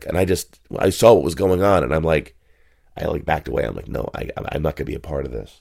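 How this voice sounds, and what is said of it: Hoarse, worn-out voice. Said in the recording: “As you can tell, I have a cold. My voice is shot.”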